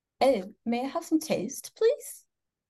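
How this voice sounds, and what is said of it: Put-on English accent. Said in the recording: “I try to talk in different voices, and for whatever reason, the English accent is what I usually go to ... in my English voice ... That is brilliant.”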